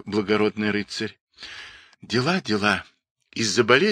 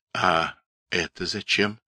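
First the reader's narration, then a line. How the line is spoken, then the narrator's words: Quiet question. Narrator (Russian): тихо спросил ведун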